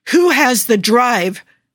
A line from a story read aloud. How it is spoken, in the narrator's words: Joe shouts over the wind